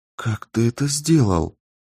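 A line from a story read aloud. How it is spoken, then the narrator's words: Whisper. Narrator (Russian): прошептала Кэрол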